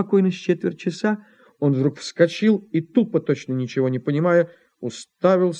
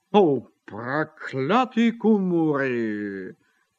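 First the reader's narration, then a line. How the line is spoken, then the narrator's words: Grumbled. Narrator (Russian): проворчал он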